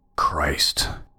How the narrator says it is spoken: I muttered to myself

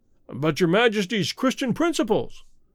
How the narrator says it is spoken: exclaimed the bewildered chamberlain

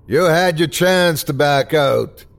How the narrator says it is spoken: screamed the bartender

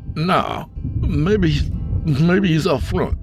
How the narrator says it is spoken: Isaac slurred

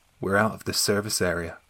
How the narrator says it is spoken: she replied very calmly

